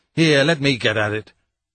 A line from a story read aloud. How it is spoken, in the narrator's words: sharply and angrily